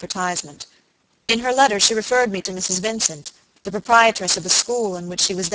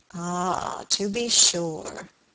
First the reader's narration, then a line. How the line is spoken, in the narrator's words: muttered Mr